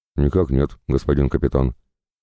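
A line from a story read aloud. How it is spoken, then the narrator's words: Shocked, fearful mumble. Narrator (Russian): пробормотал потрясенный близостью неизбежной расправы Кратков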